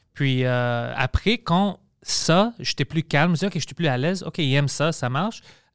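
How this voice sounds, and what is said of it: Strong accent in French. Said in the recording (French): “Mon accent est trop fucking trop dur ... ton accent ... c'est moitié grec, moitié.”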